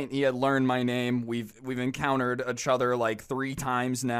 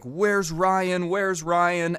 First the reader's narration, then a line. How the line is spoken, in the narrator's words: he starts screaming